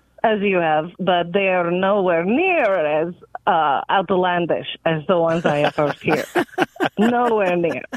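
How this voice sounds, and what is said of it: Non-native English accent. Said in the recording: “I'm hearing an accent”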